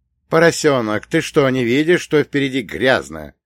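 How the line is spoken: Angry grumbling. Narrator (Russian): сердито пробурчал я

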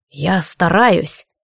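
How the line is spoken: Quiet. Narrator (Russian): тихо сказал Алистар

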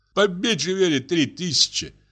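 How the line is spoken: Tearful voice. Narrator (Russian): ответил плачущим голосом дядя

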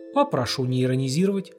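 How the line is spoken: Stern remark. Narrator (Russian): строго заметил Коковенко

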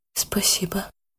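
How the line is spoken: Quiet. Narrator (Russian): так же тихо ответила Яна

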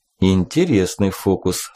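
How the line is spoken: Plain. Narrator (Russian): сказал он

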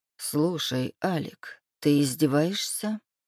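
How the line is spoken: Muttered in pain. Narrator (Russian): пробормотал я, морщась от боли

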